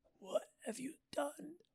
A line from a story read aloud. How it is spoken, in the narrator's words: He whispered, barely alive